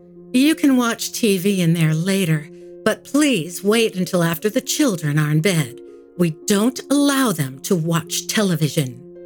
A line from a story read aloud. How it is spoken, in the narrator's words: said Mrs